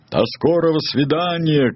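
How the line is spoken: Eagle shouting. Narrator (Russian): крикнул орел

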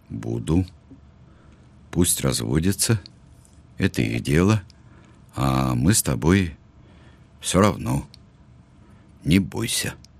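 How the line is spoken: Cough, quiet but firm. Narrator (Russian): Он кашлянул, сказал тихо, но со всей твердостью

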